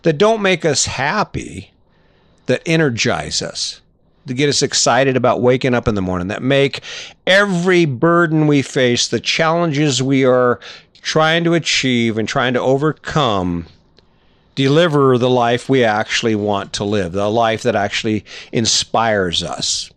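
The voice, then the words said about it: Loud, yelling delivery. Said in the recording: “I'm going to stop yelling at you”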